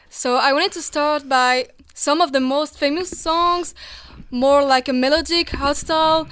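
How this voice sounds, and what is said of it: French accent. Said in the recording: “my French accent. I know it's quite bad”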